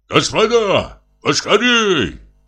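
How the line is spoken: Shouted. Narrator (Russian): крикнул им Самойленко

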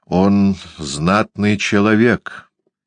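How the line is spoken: Gloomy. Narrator (Russian): сказал Джеймс мрачно

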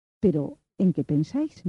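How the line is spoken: Plain. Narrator (Spanish): dijo ella

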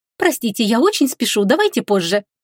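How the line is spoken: Rapid rattling speech. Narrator (Russian): протараторила графиня

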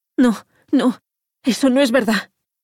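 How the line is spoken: Moaning. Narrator (Spanish): gimió

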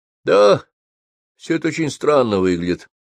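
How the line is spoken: Sighing. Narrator (Russian): вздохнул Митя

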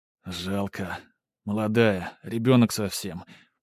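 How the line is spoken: Mumbled. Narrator (Russian): пробормотал он

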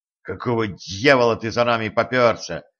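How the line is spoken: Angry hiss. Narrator (Russian): сердито прошипел он

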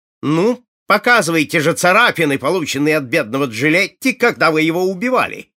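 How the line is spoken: Shouting. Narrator (Russian): крикнул он

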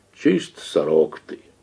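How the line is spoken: Exasperated deep bass. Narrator (Russian): когда уж становилось не втерпешь от докучаний жены, внутренним басом говорил

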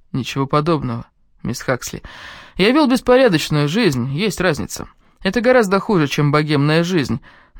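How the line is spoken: Mocking. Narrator (Russian): добавил он насмешливо

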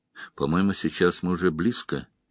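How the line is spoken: Quiet. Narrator (Russian): тихо произнес он

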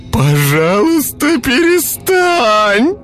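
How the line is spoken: Desperate shout. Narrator (Russian): выкрикнул я, не в силах слушать душераздирающие вопли

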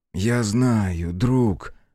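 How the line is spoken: Gentle. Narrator (Russian): мягко сказал Хицу

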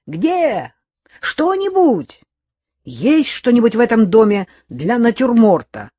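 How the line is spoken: Shouting from the kitchen. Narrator (Russian): Стасик уже кричал откуда-то из кухни

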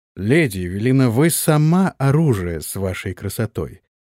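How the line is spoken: Plain. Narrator (Russian): ответил Антон

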